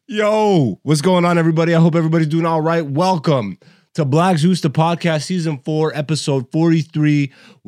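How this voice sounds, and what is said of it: Cracking, worn-out sick voice. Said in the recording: “You can hear my voice is cracking... My voice is shot... I'm sick as a motherfucker.”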